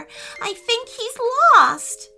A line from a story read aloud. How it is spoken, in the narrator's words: cried Emma